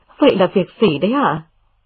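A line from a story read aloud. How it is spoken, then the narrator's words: Smiling question. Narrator (Vietnamese): mỉm cười hỏi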